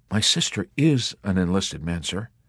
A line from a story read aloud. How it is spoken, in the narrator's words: the chaplain replied